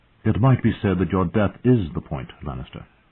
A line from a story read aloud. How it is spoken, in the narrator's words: Catelyn Stark replied